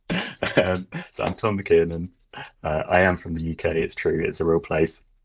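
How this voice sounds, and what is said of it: British accent. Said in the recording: “he's from the UK ... great accent”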